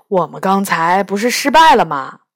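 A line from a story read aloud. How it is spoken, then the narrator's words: Disappointed sigh. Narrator (Chinese): 杨永乐失望地叹了口气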